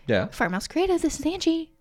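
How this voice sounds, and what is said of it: Polished customer service phone voice. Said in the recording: “I definitely have a voice on the phone ... that's your customer service voice ... That's my customer service voice”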